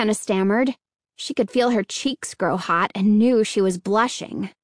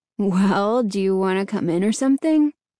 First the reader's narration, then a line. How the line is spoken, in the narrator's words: he asked